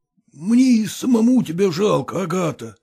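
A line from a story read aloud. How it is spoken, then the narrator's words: Hoarse hungover voice. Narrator (Russian): сказал он хриплым с похмелья голосом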